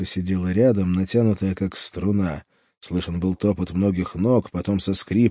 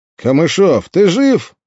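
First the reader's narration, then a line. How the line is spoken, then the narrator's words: Shout. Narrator (Russian): крикнул Андрей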